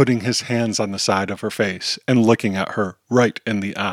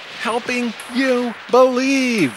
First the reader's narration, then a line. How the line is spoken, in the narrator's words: Kirby yells